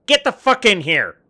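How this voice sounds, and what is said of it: Yelling angrily. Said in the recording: “sorry for yelling”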